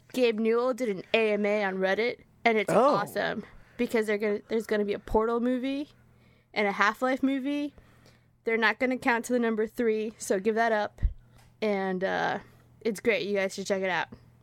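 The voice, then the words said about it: Exaggerated deep male voice. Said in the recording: “I'm gonna pretend I'm Davis. I'm gonna talk real deep. ... My real deep voice because I'm a guy now. Not very good.”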